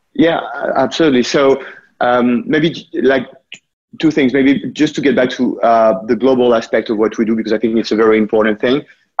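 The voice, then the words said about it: French accent. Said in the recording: “you also might notice from my accent that I was born there ... the company was created in France”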